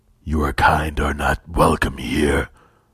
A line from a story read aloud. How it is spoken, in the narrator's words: Vakaspa growled